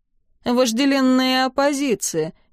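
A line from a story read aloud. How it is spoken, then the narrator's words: Sad. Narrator (Russian): печально сообщил Дар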